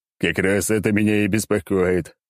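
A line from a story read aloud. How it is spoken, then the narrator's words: Chuckling. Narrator (Russian): Ермолов хохотнул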